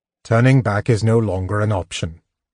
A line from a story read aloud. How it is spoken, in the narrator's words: Tanis said coldly